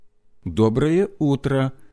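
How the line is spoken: Somewhat hesitant. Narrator (Russian): ответил он несколько неуверенно

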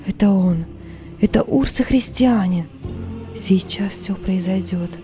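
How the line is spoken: Trembling whisper. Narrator (Russian): шептала она дрожащими губами

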